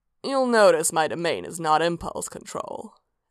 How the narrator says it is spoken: Sanguine said dryly

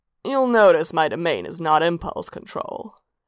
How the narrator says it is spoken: Sanguine said dryly

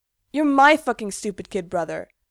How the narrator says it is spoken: Gerard snaps

